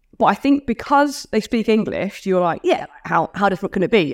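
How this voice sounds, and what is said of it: Australian accent. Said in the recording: “they find my accent quite difficult to understand. ... still speak Aussie.”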